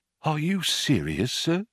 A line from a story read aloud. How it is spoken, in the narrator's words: said in a small whisper